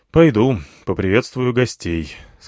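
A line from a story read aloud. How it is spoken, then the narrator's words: Grim. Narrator (Russian): сказал я мрачно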